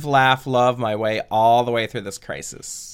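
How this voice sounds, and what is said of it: California valley girl voice. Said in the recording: “my only accent for Karen's is uh, like like California like, surfer girl. ... Valley, Hillary Valley from Girl.”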